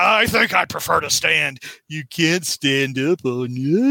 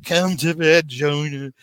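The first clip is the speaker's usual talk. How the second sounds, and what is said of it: Imitates another person's voice. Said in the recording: “demon Zsa Zsa Gabor saying ... do that impression”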